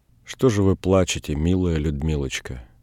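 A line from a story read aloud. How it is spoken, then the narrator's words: Soft gentle question. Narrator (Russian): тихонько спросил он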